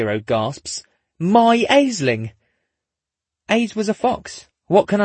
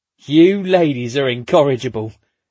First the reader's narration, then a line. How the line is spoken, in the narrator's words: Wozniak chuckles